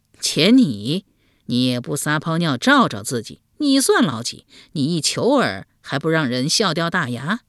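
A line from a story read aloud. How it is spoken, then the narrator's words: Mocking laugh. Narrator (Chinese): 宋敏公笑讥道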